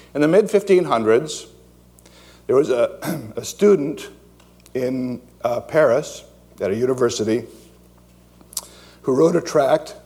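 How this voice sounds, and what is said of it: Strained, hoarse voice. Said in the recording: “I'm losing my voice already. I just got started.”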